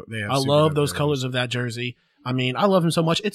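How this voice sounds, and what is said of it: Southern twang accent. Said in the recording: “somehow gave me a little bit of a Southern accent while ranting about this ... all of a sudden you got a Southern twang”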